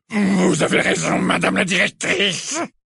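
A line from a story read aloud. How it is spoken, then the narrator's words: Hissing voice. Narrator (French): répondit-il de sa voix sifflante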